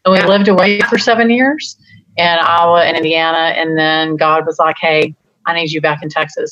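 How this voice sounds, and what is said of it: Slight Texas accent. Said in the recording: “you can hear my accent a little bit”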